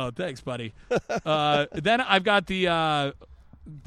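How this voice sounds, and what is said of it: Usual voice. Nothing is said of it.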